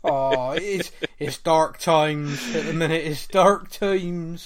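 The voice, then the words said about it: Put-on West Country English accent. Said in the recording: “He says in his best West Country accent.”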